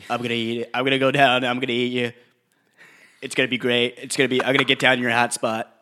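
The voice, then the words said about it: Imitates another person's voice. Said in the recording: “that was a good impression.”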